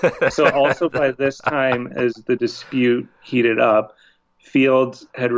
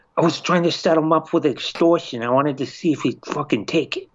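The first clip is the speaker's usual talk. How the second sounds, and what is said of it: Bad mobster-style voice impression. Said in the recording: “in a mob voice? ... but I'd probably do like a soprano. ... That wasn't very good. ... No, that's bad.”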